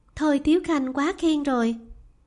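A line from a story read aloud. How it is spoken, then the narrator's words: Shy, smiling. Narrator (Vietnamese): Lý Doanh thẹn thùng, mỉm cười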